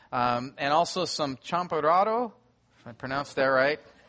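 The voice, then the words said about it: Americanized gringo pronunciation of Spanish. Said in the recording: “the gringo accent”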